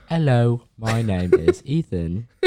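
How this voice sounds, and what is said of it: Put-on British accent, like Peppa Pig. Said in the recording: “your British accent kind of sounds like Peppa Pig.”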